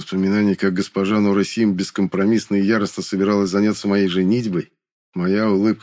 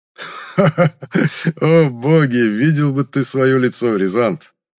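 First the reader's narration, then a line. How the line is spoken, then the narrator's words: Infectious roaring laughter. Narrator (Russian): Заразительно расхохотался он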